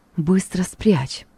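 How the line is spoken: Barely audible whisper. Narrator (Russian): чуть слышно прошептала она

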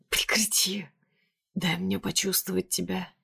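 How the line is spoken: Hoarse, against lips. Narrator (Russian): Хрипит мне в губы

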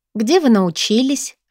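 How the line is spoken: Timid question. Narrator (Russian): робко интересуюсь я

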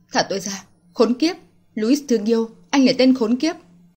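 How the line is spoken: Angry cursing. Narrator (Vietnamese): Lạc Tranh không ngừng mắng nhiếc hắn

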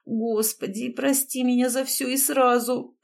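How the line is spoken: Hoarse, to herself. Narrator (Russian): прохрипела я самой себе

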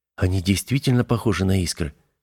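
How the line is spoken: Whisper. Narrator (Russian): прошептал Виктор

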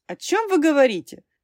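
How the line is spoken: Irritated interruption. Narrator (Russian): раздраженно перебила меня госпожа Василовская

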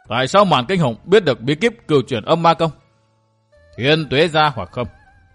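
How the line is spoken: Stern voice. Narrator (Vietnamese): Lâm Tử bặm môi nghiêm giọng nói

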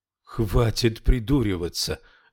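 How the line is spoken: Exclamation. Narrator (Russian): воскликнул Яф

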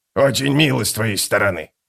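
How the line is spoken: Mutter. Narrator (Russian): пробормотал скрипач

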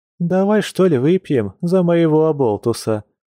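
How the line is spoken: Sighing. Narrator (Russian): вздохнула

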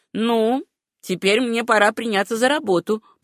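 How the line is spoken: Grumbled. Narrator (Russian): проворчал он

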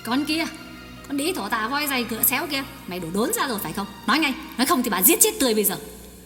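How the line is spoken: Furious hiss through teeth. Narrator (Vietnamese): Bà nghiến răng ken két, đôi mắt tóe lửa rít lên

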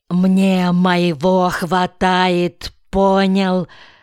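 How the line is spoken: Angry hiss. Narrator (Russian): зло зашипел

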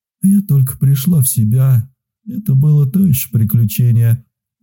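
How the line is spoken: Sighing. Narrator (Russian): вздохнула

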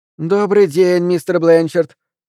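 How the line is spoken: Cheerful. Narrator (Russian): весело произнесла мисс Дувал

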